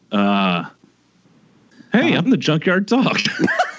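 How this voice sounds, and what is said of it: Imitates another person's voice. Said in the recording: “that your impression of Jason's impression of the Junkyard Dog?”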